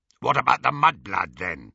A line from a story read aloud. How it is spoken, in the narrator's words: growled Greyback